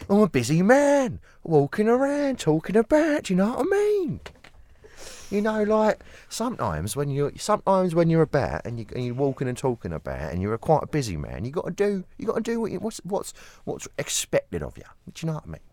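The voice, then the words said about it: Exaggerated Cockney accent. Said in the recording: “You got to do your Cockney ... Do you know who you sound like? ... Mickey Flanagan.”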